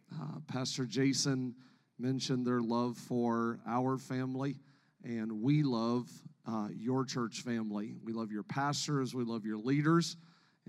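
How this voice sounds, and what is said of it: Noticeable non-local accent. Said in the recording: “I pick up an accent, where are you from?”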